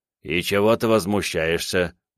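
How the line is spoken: Displeased mutter. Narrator (Russian): недовольно пробурчал Мэдзи

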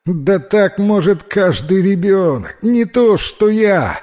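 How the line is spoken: Laughing. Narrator (Russian): рассмеялся Василий

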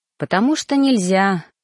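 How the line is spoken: Parent sighing. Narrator (Russian): вздохнул родитель

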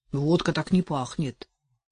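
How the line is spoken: Muttering. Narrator (Russian): Водила пробормотал

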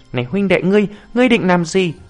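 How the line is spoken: Frightened monk crying out. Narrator (Vietnamese): Đại trí thiền sư sợ hãi vội kêu

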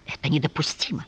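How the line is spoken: Hissing. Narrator (Russian): прошипел Луиза

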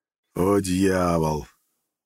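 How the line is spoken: Resigned drawl. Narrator (Russian): обреченно протянул я

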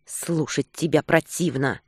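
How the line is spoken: Hissed through clenched teeth. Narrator (Russian): процедила Наталья сквозь зубы

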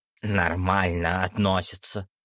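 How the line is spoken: Creaky voice. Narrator (Russian): проскрипел Джамба

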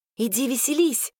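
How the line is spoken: Whispered. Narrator (Russian): шепнула я

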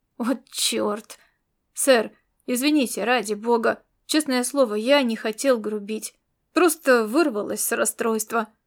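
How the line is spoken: Mutter. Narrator (Russian): Пробормотал

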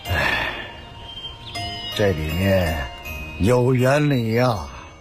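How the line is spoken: Sighing old man. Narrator (Chinese): 老人叹息说

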